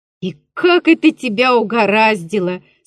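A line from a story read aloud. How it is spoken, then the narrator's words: Laughing, group. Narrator (Russian): смеялись чиновники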